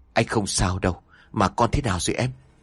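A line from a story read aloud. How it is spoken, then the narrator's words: Said gently. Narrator (Vietnamese): Lâm nhẹ nhàng nói ra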